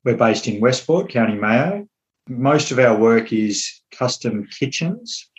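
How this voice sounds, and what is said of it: Non-Irish, Australian accent. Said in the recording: “obviously from your accent, you're not Irish ... I'm from Melbourne”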